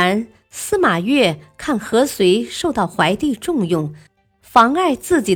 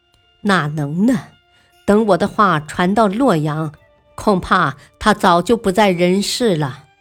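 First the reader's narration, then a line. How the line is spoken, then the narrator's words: Smiling. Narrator (Chinese): 王尼，微笑道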